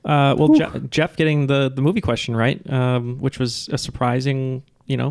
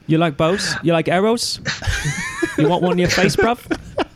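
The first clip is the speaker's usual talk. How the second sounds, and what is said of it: British accent. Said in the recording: “Spot on British accent.”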